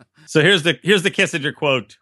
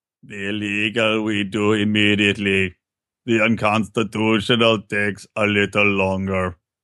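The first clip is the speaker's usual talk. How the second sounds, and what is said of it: Imitates another person's voice. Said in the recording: “are you going to do a Kissinger voice? ... Your Kissinger sounds like, who's the fake Arnold Schwarzenegger from The Simpsons?”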